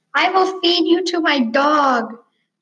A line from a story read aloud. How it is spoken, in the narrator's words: screamed Preston like a little girl